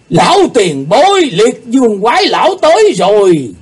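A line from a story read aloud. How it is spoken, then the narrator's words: Group shouting together. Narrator (Vietnamese): Họ cùng lượt la lên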